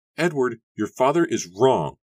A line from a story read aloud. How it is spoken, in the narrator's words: Susanna shouted desperately